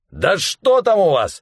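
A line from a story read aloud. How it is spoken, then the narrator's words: Shouted. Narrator (Russian): закричал главарь шайки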